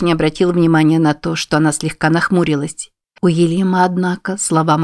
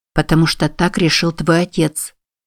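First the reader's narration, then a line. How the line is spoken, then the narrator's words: Soft. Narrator (Russian): мягко произнесла Констанция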